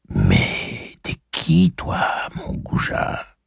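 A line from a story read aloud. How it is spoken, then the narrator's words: Breathed whisper. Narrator (French): souffla-t-elle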